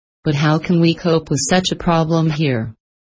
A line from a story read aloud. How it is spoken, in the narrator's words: I asked